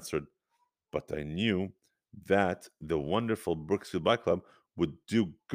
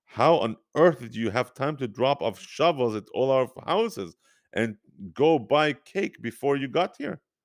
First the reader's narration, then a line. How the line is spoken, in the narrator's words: Tzvi chuckled loudly